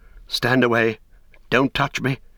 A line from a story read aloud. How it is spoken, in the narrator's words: he cried